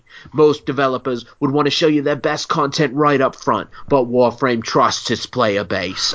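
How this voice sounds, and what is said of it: Bad put-on British accent. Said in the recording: “Sorry for the terrible British accent”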